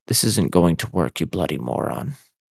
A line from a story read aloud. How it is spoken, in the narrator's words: Malfoy hissed under his breath